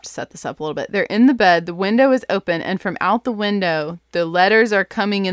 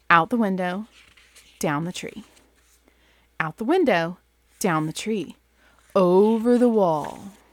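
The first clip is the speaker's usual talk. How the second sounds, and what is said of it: Storytelling voice for children. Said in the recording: “I'm doing the voice I do for my kids, obviously.”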